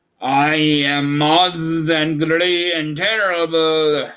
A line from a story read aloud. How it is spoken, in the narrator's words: spoke the beast in the voice that was one great roar